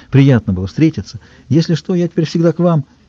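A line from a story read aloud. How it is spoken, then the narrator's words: Fussy, hurried. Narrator (Russian): Максим с той же проступавшей суетливостью сказал быстро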